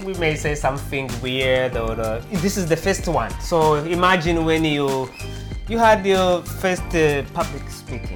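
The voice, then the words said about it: Heavy accent. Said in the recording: “You can hear it in my heavy accent”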